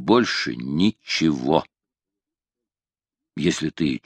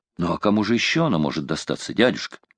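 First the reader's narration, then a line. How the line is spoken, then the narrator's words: Exclaiming. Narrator (Russian): воскликнул Дорвард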